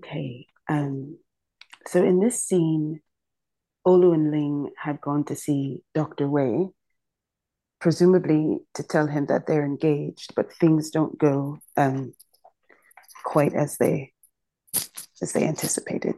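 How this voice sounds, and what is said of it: Slightly congested voice from cold. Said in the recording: “I've got a little bit of a cold”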